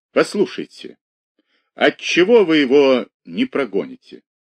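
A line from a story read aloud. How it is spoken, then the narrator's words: Measured, after deep sigh. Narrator (Russian): глубоко вздохнул, спросил с расстановкой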